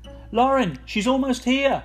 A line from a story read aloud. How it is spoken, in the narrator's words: Jam's yell echoed urgently up from the hall